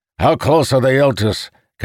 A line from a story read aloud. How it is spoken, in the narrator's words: Calamir barked